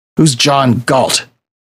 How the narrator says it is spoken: growled Wolverine around the cigar in his mouth

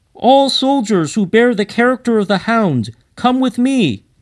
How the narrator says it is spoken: he cried

